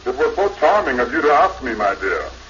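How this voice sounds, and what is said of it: Deep, croaky woman's voice. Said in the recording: “Her mama still got a deep voice ... almost as bad as that bullfrog”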